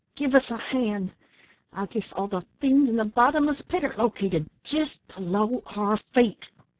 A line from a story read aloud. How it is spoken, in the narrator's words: cried the one who spoke first